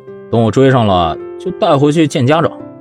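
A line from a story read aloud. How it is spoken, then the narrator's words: Calm, smiling. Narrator (Chinese): 袁子峰笑了笑，声音平静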